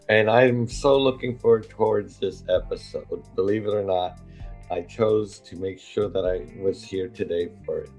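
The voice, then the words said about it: Voice sounds unusual, unlike normal. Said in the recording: “if people are thinking you have a guest host today, they're mistaken. This is really my voice today ... I'm hoping that my voice is not a distraction”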